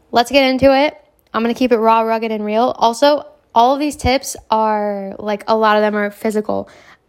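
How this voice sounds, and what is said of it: Strained voice from a cold. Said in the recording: “I keep losing my voice. My throat is like bugging right now. So if I sound weird, it's because I have a cold.”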